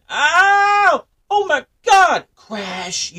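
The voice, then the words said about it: Screaming in pain. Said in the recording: “I'm screaming”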